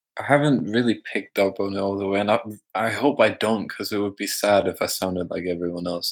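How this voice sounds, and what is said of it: Distinct non-British accent. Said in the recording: “you have a really distinct accent ... Distinct accents are sexy ... I don't think you sound like a British person very much ... But a little bit”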